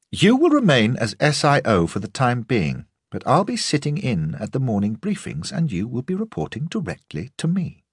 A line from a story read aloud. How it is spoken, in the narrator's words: nodded curtly and told him